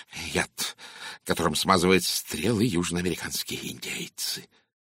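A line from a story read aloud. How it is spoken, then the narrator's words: Smiling mutter. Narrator (Russian): пробормотал мистер Кленси с улыбкой на лице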